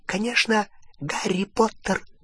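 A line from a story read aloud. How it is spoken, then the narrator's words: Whisper. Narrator (Russian): прошептал Добби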